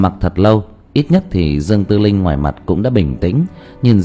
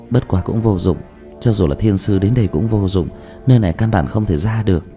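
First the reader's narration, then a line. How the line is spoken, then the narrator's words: Sighing. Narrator (Vietnamese): Dương Tư Linh lại thở dài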